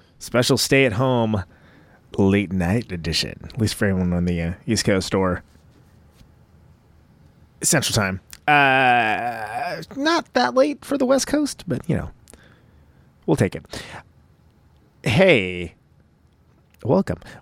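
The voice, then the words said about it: Sultry, low seductive voice. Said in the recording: “I'm trying to do, like, the sultry voice right now. I don't know why I'm doing the sultry voice”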